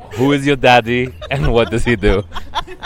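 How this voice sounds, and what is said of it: Arnold Schwarzenegger impression. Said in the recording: “going to do an impression of Arnold Schwarzenegger”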